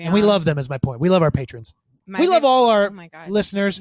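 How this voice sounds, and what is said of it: Loud, yelling delivery. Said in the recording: “You're yelling. You're so loud.”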